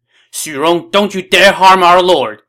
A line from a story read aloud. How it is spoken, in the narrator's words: shouted